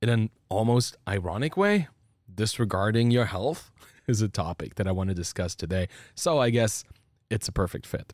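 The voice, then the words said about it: Voice slightly off from a cold. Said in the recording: “my voice is a little bit off today because I'm coming down from a pretty intense cold”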